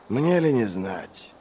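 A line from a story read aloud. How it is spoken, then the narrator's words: Sighing. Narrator (Russian): вздохнул Глокта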